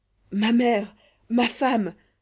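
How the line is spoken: Doctor exclaiming. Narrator (French): s'écria le docteur Fandango

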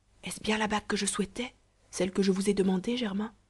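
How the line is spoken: Softly spoken. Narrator (French): Marie lui dit tout bas

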